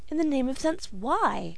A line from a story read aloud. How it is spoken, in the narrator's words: cried the astonished girl